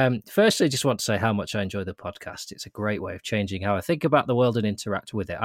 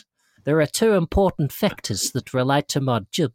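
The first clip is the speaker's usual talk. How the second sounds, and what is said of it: Put-on New Zealand accent. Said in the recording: “I live in New Zealand. Brackets, use accent, please ... he spent some time in South Africa by the sound ... This is the most specifically targeted accent I've ever used”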